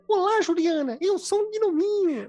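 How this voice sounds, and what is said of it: Cute Disney-style cartoon voice. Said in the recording (Portuguese): “Com vozinha de Disney”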